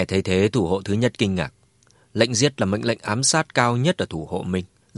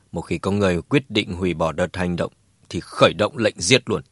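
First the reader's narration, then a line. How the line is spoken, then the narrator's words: Cold, flat. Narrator (Vietnamese): Đỗ Ngọc Sơn lạnh lùng nói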